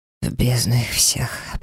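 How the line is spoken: Hoarse mutter. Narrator (Russian): пробормотал он хрипло

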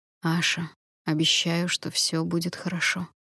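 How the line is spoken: Soft reassurance. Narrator (Russian): мягко заверил Калит

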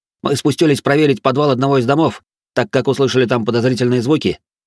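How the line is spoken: Rapid chatter. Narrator (Russian): начал тараторить один из воинов

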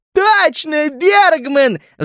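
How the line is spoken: Squeal. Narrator (Russian): взвизгнул Снорри

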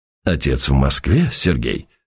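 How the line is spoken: Quiet question. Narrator (Russian): спросил тихо Уваров

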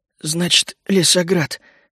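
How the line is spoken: Hoarse, dry throat. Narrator (Russian): прохрипел я пересохшим горлом

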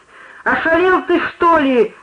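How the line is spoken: Yelled. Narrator (Russian): заорал кто-то

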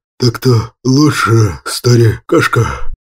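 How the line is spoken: Hissing. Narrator (Russian): Прошипел Асур

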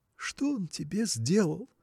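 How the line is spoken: Tearful wife. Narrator (Russian): промолвила сквозь слезы жена

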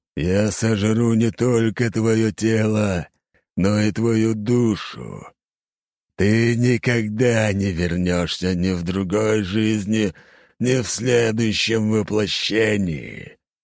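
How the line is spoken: Eerie icy inner voice. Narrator (Russian): Жутким ледяным голосом сущность отозвалась в моей голове

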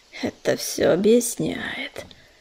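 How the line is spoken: Quiet hiss from behind. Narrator (Russian): послышалось негромкое шипение за спиной у Ежевики

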